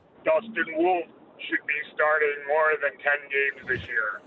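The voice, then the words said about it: Imitates a famous actor's voice. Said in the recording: “in a Sylvester Stallone voice”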